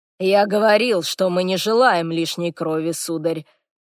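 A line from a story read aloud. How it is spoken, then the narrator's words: Suddenly harsh dry tone. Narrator (Russian): произнес господин Мобрин неожиданно жестким и сухим тоном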